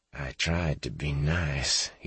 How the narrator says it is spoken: he said through tightly gritted teeth

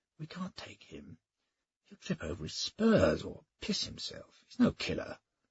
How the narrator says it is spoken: he whispered

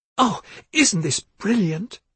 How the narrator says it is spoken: Dorothea exclaimed

